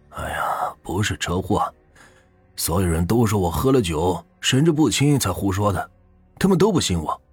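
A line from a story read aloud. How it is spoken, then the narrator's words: Sighing, earnest. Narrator (Chinese): 他当时叹了口气，很是认真的说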